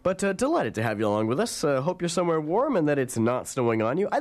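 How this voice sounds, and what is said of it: Stuffed-up, congested voice from cold. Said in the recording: “I have a cold, so sound a little stuffed up”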